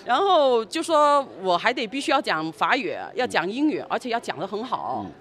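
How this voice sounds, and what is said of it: Mandarin with Cantonese accent. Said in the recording (Chinese): “我本来就是广东人...虽然有点口音”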